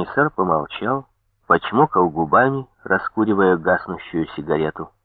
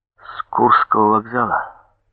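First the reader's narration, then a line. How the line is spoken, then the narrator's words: Dejected voice. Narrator (Russian): спросил я упавшим голосом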